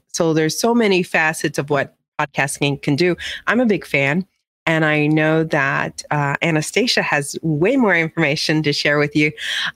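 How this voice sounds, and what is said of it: Slightly nasal, congested voice. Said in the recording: “I sound a little nasally, I'm coming off of a cold”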